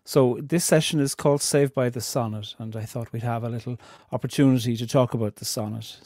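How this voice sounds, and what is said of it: Quiet, low-volume speaking voice. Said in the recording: “I have a quiet voice ... you might want to turn up your volume if you're experiencing me to be low”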